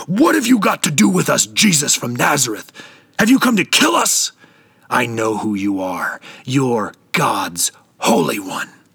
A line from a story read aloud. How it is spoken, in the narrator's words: a man in the grip of an evil spirit shouting out